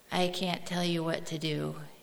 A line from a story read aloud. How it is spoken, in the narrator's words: he said